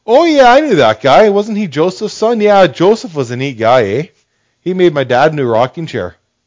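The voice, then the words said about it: Put-on Canadian accent. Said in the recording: “I don't know if Nazareth had a Canadian accent.”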